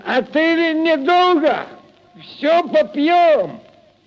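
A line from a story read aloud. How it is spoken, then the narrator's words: Drunken shout. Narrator (Russian): Захмелевший Прохор крикнул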